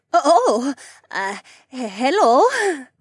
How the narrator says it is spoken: my mom said in an anxious tone

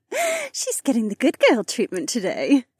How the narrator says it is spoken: Becca giggled against my neck

